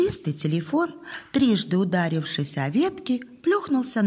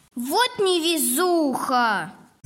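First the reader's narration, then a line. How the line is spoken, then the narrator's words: Very loud shout. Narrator (Russian): Закричала Зоя так громко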